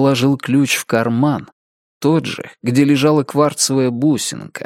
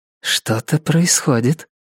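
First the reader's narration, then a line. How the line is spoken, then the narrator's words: Whisper. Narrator (Russian): шепнула охотница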